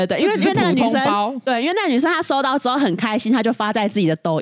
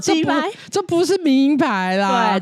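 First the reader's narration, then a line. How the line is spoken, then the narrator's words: Mocking. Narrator (Chinese): 取笑说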